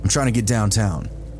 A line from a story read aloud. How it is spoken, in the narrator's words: he said